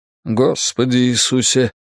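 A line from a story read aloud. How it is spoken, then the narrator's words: Sighing. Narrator (Russian): вздохнул Крамли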